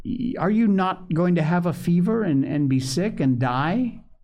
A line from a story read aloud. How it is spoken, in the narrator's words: she cried